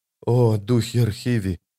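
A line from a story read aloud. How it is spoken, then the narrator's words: Whisper. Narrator (Russian): прошептала она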